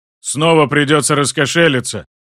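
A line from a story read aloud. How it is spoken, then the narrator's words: Gloomy deep voice. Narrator (Russian): угрюмо пробасил Жан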